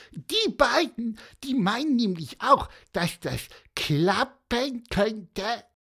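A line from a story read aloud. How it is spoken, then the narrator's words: Squeaky voice. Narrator (German): piepste Pieper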